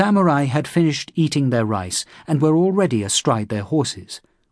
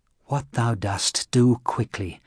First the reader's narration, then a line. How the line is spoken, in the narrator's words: muttered the priest in his heart